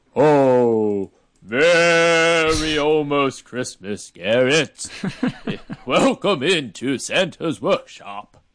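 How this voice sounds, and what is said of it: Poor Santa voice, odd accent. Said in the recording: “That was terrible. That got a weird accent at the end.”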